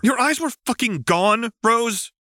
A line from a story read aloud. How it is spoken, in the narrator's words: John shouted, sounding uncharacteristically animated